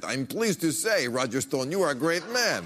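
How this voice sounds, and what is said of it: Put-on Russian accent. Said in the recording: “Why are you saying that in a Russian accent?”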